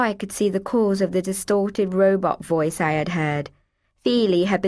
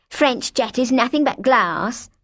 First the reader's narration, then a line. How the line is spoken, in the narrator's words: she spat